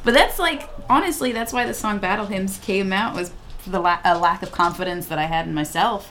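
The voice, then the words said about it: New York accent. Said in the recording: “That was said with such a New York accent.”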